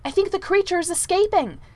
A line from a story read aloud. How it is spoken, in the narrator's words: interrupted Percy hastily